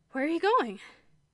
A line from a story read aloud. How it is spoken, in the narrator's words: asked Henry in a strange, breathless voice